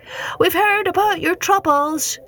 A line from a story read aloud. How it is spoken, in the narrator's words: yelled